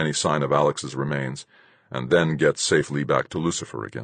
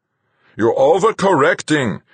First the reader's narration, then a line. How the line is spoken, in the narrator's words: would shout into my earphones